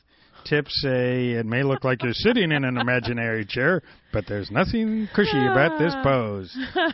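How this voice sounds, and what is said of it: Speaks with a noticeable accent. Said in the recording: “I just loved your accent”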